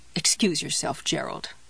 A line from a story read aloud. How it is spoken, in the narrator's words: she muttered